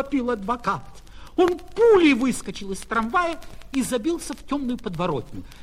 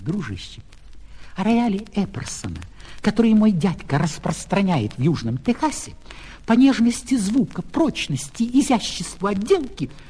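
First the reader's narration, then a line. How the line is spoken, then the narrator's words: Whisper. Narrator (Russian): кондуктор шепнул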